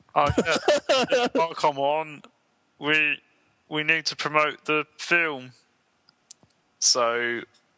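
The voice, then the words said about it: Poor Kermit the Frog impression. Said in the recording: “I'll do my impression of him ... that was hopeless ... Kermit the Frog, isn't it? ... It is Kermit the Frog ... your impression of him. It was hopeless.”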